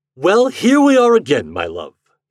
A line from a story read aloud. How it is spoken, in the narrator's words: he cried